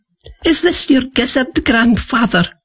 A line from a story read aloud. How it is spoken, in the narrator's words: piped